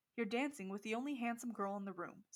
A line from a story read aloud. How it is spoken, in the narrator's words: said Mr